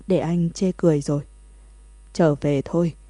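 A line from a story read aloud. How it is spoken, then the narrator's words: Hoarse near-whisper after crying. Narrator (Vietnamese): Cuối cùng Thẩm Thất cũng khóc cạn cả nước mắt, tiếng nói khàn khàn giống như thì thầm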